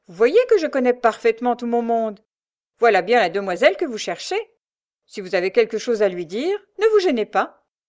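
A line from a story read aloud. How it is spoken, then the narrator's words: Sneering soldier. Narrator (French): ricana le militaire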